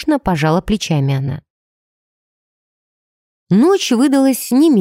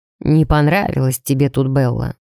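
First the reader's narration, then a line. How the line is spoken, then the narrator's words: Shrewd fatherly question. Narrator (Russian): проницательно спросил отец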